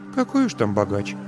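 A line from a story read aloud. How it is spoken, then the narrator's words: Sighed. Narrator (Russian): вздохнула Марина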